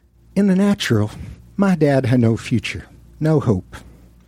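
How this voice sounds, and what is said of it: Joel Osteen impression, Southern voice. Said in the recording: “my Joel Osteen impersonation, which I've been working on in a series of radio interviews. Apologies in advance to any Southerners who are in the crowd tonight.”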